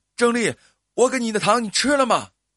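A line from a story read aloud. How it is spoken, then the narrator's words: Hurried shouting while running. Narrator (Chinese): 小伟慌忙的奔跑追来，一边追一边喊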